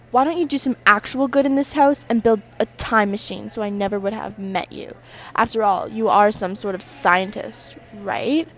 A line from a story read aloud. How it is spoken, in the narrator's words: Melissa spat